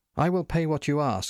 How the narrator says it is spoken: I said happily

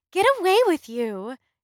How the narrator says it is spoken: laughing

